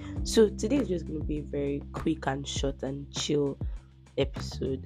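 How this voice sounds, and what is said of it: Congested, stuffy voice. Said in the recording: “I sound congested. I'm actually very congested. I have a bad cold, that's cough and catarrh, so you have to manage my voice.”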